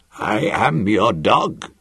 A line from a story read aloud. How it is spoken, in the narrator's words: he said hoarsely